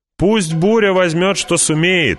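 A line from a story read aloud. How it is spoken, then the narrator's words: Shouting. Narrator (Russian): закричала она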